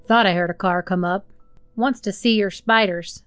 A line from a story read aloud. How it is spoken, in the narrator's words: Speaking to the old woman, he said in a low tone